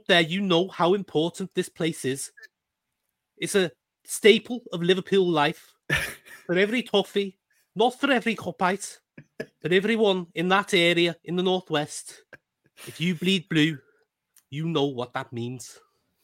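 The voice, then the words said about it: Put-on Scouse accent. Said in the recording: “that's better than I could ever have expected, and also a lot longer. When I do an accent, I keep it up for about two or three words. You did a whole intro to this game”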